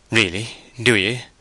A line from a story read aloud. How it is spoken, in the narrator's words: said Gabriel gravely